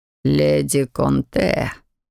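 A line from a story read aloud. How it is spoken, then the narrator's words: Low, spine-tingling voice. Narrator (Russian): произнес он низким голосом, от которого у меня по коже пробежали мурашки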